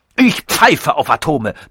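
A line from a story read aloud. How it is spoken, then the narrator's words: Thundering. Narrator (German): donnerte er los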